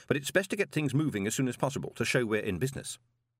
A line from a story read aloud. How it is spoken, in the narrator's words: said Moist quickly